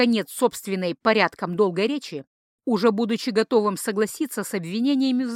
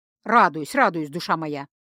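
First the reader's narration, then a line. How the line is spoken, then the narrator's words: Sighing. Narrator (Russian): Вздохнул Тацу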